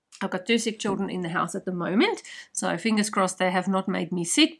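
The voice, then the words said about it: Croaky voice. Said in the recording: “my voice is a bit croaky this morning”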